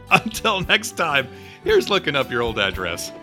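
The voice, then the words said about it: Voice squeaks. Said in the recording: “Why did my voice squeak?”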